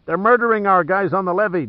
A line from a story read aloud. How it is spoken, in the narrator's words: Giordino shouted in Pitt's ear, his words barely heard over the bedlam